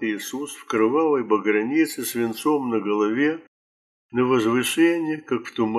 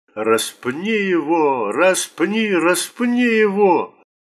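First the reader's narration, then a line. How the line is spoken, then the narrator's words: Angry crowd shouting. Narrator (Russian): первосвященники и стражи … закричали в злобном раже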